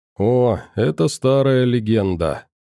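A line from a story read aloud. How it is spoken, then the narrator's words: Mysterious voice. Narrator (Russian): загадочным голосом проговорил Кух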